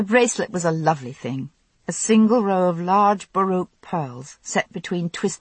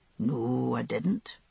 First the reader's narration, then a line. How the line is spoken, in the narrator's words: he answered softly